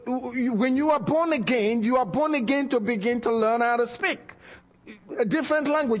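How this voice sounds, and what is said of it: Speaks with a noticeable accent. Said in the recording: “I have tried very hard to change my accent. ... The more I try, the more I get in trouble.”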